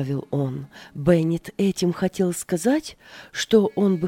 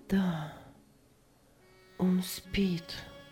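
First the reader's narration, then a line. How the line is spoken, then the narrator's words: Strange, altered voice. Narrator (Russian): ответила Аня чужим голосом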